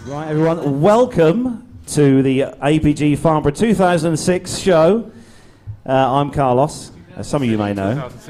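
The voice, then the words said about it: English accent. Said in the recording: “It's my English accent. It throws all the American guys”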